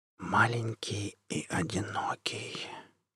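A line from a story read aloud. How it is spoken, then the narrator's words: Whisper. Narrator (Russian): прошептал Джек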